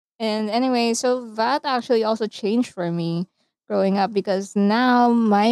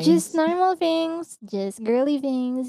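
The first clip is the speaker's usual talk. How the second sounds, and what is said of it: Irritating Valley Girl voice. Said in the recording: “best irritating Valley Girl impression.”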